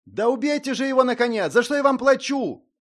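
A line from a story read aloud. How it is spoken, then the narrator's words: Young lord's attempted shout. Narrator (Russian): пытался прикрикнуть на наемников юный лорд-единорог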